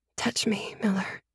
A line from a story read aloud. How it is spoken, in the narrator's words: I whispered